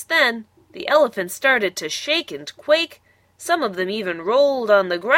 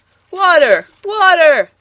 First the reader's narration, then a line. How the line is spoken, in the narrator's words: Eddie shouted